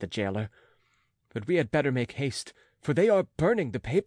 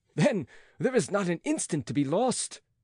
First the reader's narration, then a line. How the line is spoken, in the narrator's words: cried the physician